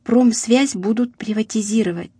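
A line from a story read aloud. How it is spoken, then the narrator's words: Father speaking quietly. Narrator (Russian): тихо говорил отец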